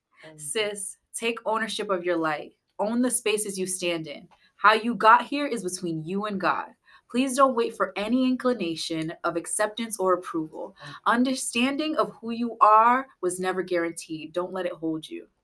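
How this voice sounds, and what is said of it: Put-on podcast-style reading voice. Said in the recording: “I'm going to put my podcast voice on.”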